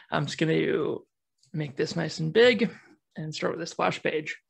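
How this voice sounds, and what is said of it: American accent, not Kiwi. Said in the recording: “apologies for anyone expecting a lovely Australian or Kiwi accent... I am an American Kiwi or a Yankee Kiwi... I'm a Kiwi by nature, if not by accent”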